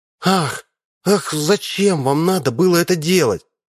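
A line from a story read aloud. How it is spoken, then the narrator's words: Creature's sigh. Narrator (Russian): вздохнуло существо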